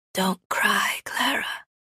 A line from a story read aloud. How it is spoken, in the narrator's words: she whispers